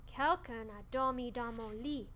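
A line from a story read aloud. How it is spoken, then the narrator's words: Bear's growl. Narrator (French): a grogné Papa Ours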